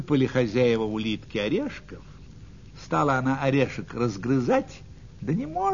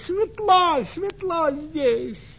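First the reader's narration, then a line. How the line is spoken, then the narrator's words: Excited shout. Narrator (Russian): Увидела улитка огонь и закричала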